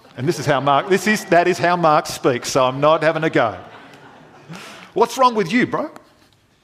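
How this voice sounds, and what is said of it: Usual voice. Nothing is said of it.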